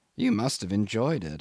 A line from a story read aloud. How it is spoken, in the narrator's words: I murmured, feeling the stir of sympathetic emotion